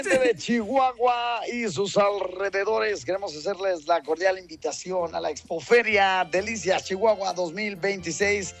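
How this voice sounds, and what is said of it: Radio announcer voice. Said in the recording (Spanish): “me pongo en voz de locutor”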